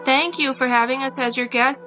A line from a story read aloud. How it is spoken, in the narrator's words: said the monks